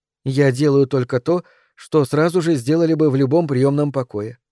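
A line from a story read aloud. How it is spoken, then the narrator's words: Calm. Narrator (Russian): спокойно сказала она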